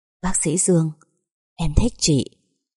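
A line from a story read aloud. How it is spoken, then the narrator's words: Soft blurted confession. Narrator (Vietnamese): lời khe khẽ bật ra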